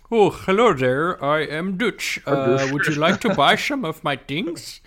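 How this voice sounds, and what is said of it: Fake Dutch accent. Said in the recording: “do they just fake a Dutch accent?”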